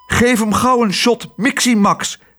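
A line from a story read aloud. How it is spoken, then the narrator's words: Calling out. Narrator (Dutch): riep de dokter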